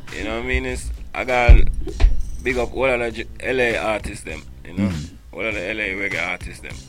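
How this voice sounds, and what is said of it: Thick accent. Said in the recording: “you got a thick ass accent”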